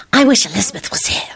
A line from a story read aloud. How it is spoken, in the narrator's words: Solange hissed to Quentin